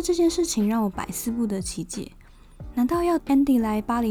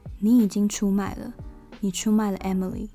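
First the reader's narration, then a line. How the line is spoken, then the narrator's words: Flat, cool. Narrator (Chinese): Miranda 只是淡淡的说了一句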